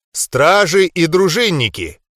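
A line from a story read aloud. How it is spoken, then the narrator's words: Loud. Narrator (Russian): громко начал я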